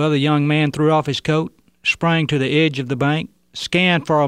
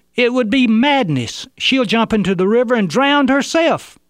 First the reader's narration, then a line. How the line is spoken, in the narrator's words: One of those holding her yelled